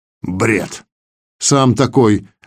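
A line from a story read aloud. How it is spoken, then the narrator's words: Snapping back. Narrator (Russian): огрызнулся Шоммер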